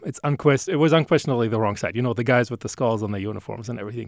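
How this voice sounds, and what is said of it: German accent. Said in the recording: “Saying Germany? ... Is that the accent I'm detecting? ... It is.”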